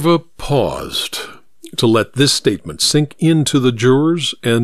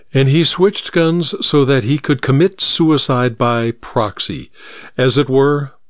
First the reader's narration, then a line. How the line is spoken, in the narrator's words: Minerva said